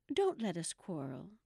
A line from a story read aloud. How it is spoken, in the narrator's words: the White Queen said in an anxious tone